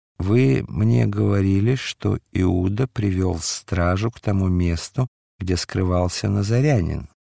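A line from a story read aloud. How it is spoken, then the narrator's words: Slow. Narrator (Russian): медленно продолжал Пилат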